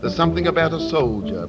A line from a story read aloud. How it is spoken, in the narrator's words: they said